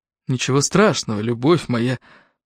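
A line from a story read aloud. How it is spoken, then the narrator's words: Hoarse voice. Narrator (Russian): хриплый голос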